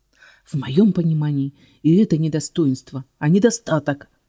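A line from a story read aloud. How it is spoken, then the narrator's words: Hissing. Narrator (Russian): зашипела я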